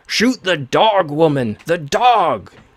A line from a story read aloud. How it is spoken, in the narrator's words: Garthur shouted at her